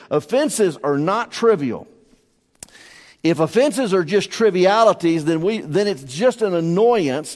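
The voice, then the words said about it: Southern American accent. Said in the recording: “my southern lingo and all of my accent”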